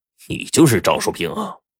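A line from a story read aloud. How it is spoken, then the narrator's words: Cold. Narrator (Chinese): 刀疤脸冷冷的说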